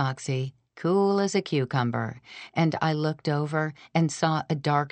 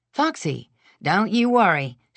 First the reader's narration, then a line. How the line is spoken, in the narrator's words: she panted